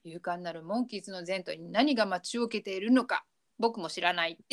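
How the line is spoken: Hearty laughter over phone. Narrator (Japanese): 電話の向こうではまだ豪快な笑い声がしています

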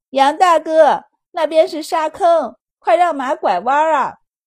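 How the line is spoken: Urgent shout. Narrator (Chinese): 连忙大叫道

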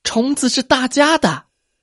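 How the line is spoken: Shouting. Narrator (Chinese): 鲁伯特和莉迪亚 他们喊道

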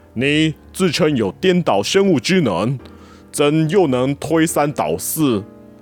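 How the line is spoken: Authoritative voice. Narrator (Chinese): 大官的声音自然更威严

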